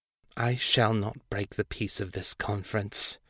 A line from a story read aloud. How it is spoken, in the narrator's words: she said, her voice low but intense